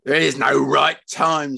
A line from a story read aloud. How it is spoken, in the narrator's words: snarled Fred